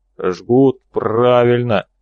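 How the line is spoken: Agreeing. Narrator (Russian): согласился Хрипатый

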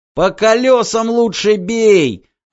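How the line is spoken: Yelling close by. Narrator (Russian): заорал Вакса над ухом

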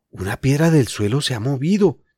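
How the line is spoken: Highly excited voice. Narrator (Spanish): dijo Julián con voz altamente excitada

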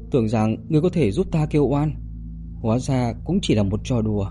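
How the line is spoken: Sighing. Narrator (Vietnamese): nữ quỷ thở dài

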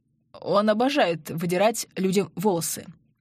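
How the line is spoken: Hoarse. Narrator (Russian): хрипло проговорил Андрей

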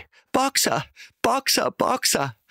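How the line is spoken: Called out. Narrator (German): rief sie

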